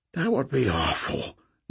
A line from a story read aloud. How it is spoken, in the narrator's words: Nick whispered for the scorpion